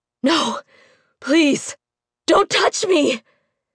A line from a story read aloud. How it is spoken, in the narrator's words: he managed between gasps